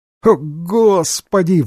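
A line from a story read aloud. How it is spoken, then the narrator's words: Spoken, laughing louder. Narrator (Russian): выговорил Фиверстоун и засмеялся еще громче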